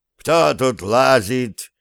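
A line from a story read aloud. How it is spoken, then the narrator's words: Sudden shout from window. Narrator (Russian): неожиданно крикнули Зверева из разбитого окна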